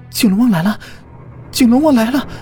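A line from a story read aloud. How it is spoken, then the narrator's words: Trembling, frightened. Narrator (Chinese): 路遥声音有些颤抖的说道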